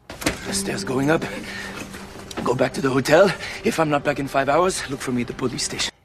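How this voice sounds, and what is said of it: Actor's put-on French accent. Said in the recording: “French accent ... Sometimes he's got a French uvular”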